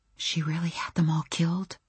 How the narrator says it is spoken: I whispered it

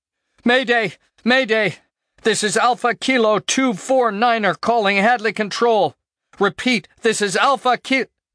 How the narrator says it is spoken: yelled into the condenser

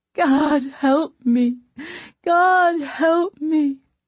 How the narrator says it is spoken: the cries of a desperate prisoner pleading

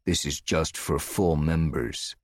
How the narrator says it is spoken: the policeman said gruffly

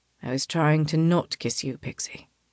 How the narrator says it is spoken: he says softly

